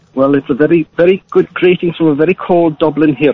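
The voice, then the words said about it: Unconvincing put-on Irish accent. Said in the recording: “give to you do a decent Irish accent. ... maybe you could have worked on the accent a little bit better, or phoned in using one that you could actually do ... You sounds like you're from Pakistan.”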